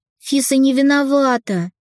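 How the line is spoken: Heated exclamation. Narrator (Russian): горячо воскликнула Ника

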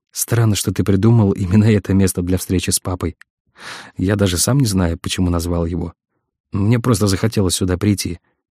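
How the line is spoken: Plain. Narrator (Russian): ответил Сазонов

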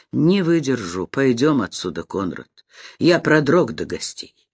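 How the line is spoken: Quiet. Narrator (Russian): прибавил тихо

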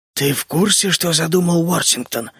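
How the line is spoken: Barely audible mutter. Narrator (Russian): еле слышно пробормотал Барретт-младший

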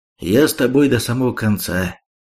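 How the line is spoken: Calm. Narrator (Russian): спокойно ответил он

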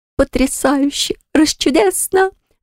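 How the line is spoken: Happy laughter. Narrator (Russian): рассмеялась счастливо

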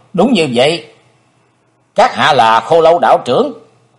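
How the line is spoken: Cold. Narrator (Vietnamese): Chí Tôn lạnh lùng nói

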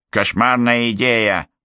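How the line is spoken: Witch's grumble. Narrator (Russian): проворчала колдунья

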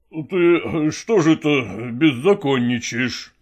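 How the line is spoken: Stern. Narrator (Russian): строго заговорил

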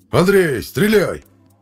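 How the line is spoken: Shouted. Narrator (Russian): крикнул Беглов

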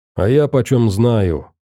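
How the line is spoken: Suddenly angry. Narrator (Russian): неожиданно зло сказал Рыжебородый

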